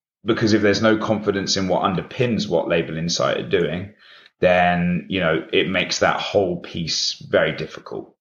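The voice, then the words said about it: British accent. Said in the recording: “we're headquartered in the UK, hence my accent”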